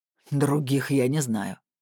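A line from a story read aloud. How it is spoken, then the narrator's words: Snorting. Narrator (Russian): хмыкнул Блуд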